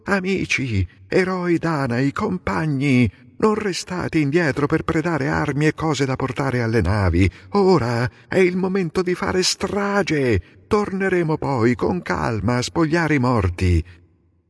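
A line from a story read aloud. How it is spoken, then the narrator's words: Rousing shout. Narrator (Italian): Nestore incitò gli argivi, gridando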